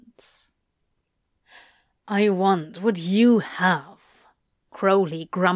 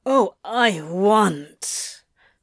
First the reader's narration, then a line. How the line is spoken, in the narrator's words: Crowley growled